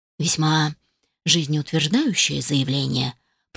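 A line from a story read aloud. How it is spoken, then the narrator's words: Quiet speech. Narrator (Russian): произнес негромко мистер Красс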